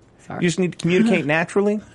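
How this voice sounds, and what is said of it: Dr. Phil impression, slight southern accent. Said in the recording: “you were really doing Dr. Phil... It's a very hint of a southern accent”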